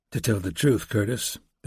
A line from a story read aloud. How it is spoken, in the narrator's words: said quietly